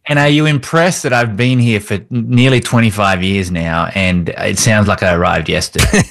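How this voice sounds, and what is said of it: Strong, unmellowed foreign accent. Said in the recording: “the accent? ... I love the accent. ... That accent of yours has not mellowed at all ... just how real this accent is.”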